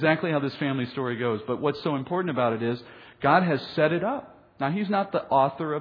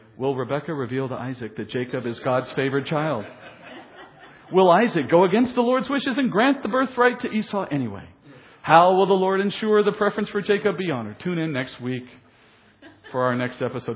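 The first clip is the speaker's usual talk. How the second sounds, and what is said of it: Dramatic soap opera announcer voice. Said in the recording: “your best weekday afternoon announcer voice”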